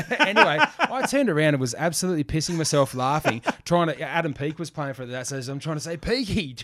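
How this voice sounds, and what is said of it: Usual voice. Nothing is said of it.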